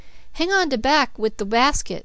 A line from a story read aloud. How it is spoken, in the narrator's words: cried the woman